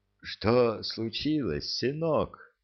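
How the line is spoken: Gentle question. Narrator (Russian): ласково спросил

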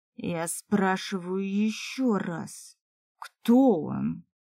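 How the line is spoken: Elf's near growl. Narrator (Russian): Практически зарычал эльф

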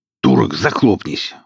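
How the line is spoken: Growling. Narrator (Russian): рыкнул он

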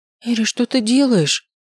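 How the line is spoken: Frightened exclamation. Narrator (Russian): испуганно воскликнула Айлин

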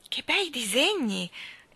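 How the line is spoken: Admiring exclamation. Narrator (Italian): esclamò Mary Poppins, guardando ammirata

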